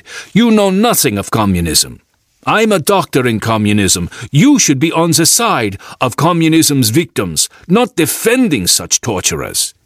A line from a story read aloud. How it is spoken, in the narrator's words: he shouted